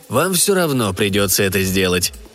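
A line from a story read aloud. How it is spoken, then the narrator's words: Calm. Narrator (Russian): спокойно сказал Эванс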